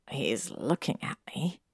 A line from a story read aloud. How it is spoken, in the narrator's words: he muttered